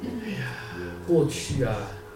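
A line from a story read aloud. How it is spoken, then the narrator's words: Slow elderly voice. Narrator (Chinese): 这个老人家呢，就慢慢的说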